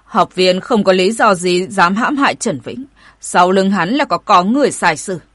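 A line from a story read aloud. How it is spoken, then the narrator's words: Stern voice. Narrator (Vietnamese): Hỏa lão nghiêm giọng hỏi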